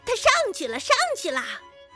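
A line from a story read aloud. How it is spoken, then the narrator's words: Shouting. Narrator (Chinese): 另一个就嚷着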